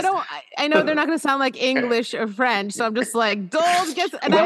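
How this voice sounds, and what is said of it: Usual voice. Nothing is said of it.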